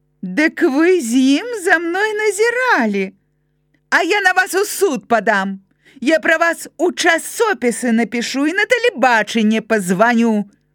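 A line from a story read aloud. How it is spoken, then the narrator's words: High-pitched near shout. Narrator (Belarusian): амаль прыкрычала высокім голасам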